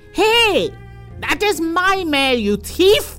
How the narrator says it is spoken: he yelled

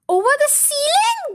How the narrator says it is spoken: they cried

